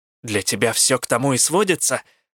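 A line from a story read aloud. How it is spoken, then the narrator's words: Snapped. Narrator (Russian): огрызнулась я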